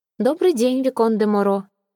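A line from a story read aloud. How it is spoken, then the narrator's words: Indifferent tone. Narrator (Russian): ответила графиня весьма равнодушным тоном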